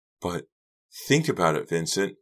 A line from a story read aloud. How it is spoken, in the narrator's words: Britty pleaded